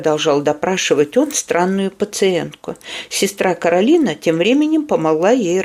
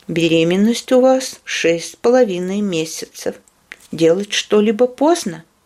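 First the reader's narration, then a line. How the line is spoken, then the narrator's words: Plain. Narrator (Russian): сказал он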